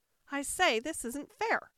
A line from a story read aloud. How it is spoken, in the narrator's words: cried the unicorn